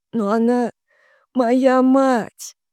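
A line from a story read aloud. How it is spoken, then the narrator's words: Forced out through tears. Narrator (Russian): выдавила сквозь слезы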